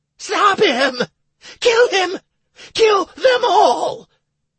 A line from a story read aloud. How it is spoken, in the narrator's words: Commandant began to scream hysterically